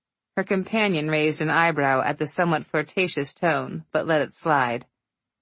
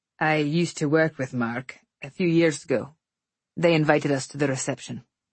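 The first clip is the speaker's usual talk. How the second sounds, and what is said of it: Scottish accent. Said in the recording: “Oh my gosh, I love your accent ... Originally Scotland. ... I've never met a Scottish person before.”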